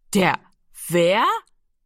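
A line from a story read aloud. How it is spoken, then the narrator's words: Loud laughing. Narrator (German): Jiro lachte laut auf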